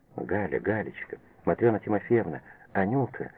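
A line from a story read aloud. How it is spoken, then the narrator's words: Incoherent mumbling. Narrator (Russian): бессвязно бормотала Лиза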